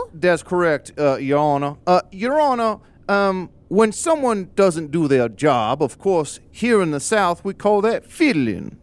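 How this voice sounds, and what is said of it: Put-on Southern American accent. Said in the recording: “you have to have a southern accent”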